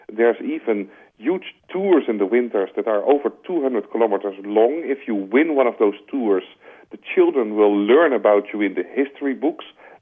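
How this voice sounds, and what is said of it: Dutch-accented English. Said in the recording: “as you hear from my accent, perhaps I'm a Dutchman”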